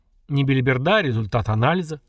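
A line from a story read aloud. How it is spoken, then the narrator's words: Dismissive snort. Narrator (Russian): хмыкнул Искин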